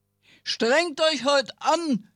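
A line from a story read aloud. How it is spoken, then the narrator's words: Impatient roar, lions. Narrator (German): brüllten die Löwen, die für so etwas kein Verständnis hatten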